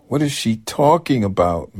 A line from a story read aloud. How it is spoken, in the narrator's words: Matt shouted, exasperated